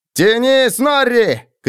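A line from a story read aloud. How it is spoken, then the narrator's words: Shout. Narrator (Russian): крикнул Роди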